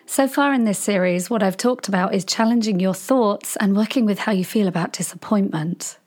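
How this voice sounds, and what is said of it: Voice affected by a cold. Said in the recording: “as you can hear, I have been struck by what happens in autumn. The cold and flu season has hit me ... despite my voice”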